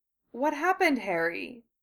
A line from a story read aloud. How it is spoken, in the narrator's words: Narcissa asked, gently